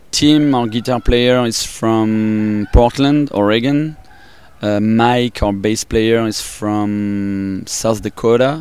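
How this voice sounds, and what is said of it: French accent. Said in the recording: “I'm from France, and from Paris... That's why my accent is like that. French.”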